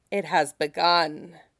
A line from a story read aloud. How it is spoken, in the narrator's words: rasps, a woman in the prime of her life